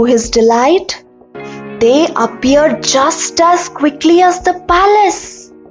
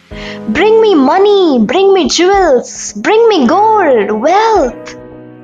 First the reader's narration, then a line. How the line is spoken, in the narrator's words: Jumping up and down excitedly, the poor man shouted